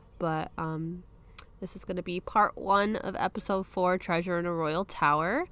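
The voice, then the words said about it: Congested voice from a cold. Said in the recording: “I apologize if I sound off ... I do have a cold, so my voice is a bit off”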